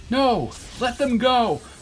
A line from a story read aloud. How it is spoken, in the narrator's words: cried Daka